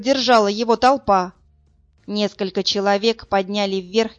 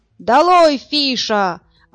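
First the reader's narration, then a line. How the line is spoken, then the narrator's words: Tireless yelling. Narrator (Russian): орал неутомимый Ложкин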